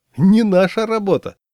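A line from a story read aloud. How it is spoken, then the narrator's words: Joyful director announcing. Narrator (Russian): Директор радостно сообщил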